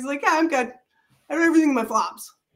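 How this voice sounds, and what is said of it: New Jersey accent. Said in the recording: “He's got this New Jersey accent.”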